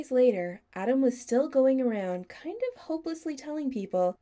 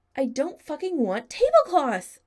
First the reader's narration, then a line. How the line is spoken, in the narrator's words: Adam shouted